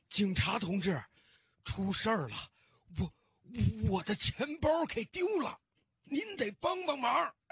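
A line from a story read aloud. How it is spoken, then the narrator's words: Hurried, panting old man. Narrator (Chinese): 老先生还没等站稳呢，就急急忙忙的喘着粗气对警察说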